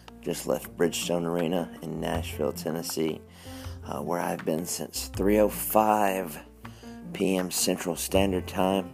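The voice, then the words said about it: Hoarse, strained voice. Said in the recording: “I'm going hoarse, not because I'm sick, because I've been yelling my head off.”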